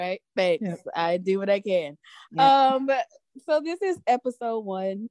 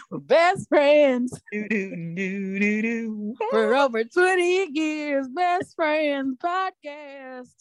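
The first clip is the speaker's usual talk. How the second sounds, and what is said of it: Put-on Southern accent. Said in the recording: “sounded really southern”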